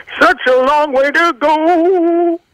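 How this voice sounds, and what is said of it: Imitates another person's singing voice. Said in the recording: “I'm doing Michael McDonald impersonation from Ride Like the Wind”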